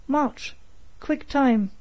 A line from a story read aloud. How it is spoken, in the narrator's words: the sergeant exclaimed